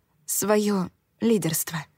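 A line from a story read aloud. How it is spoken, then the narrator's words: Whisper. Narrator (Russian): прошептала я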